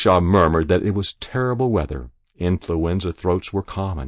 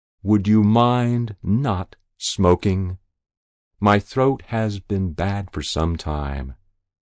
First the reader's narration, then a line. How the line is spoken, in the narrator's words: He smiled provocatively and asked very slowly